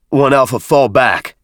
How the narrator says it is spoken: Avery shouted

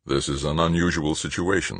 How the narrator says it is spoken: said Stoner

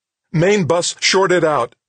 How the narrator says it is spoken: the woman shouted

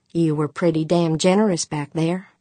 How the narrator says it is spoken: As calmly as she could manage, Pancho said

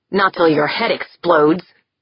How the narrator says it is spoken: Yeager growled

